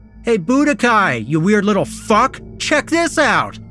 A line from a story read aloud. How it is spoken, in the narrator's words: Ricky yelled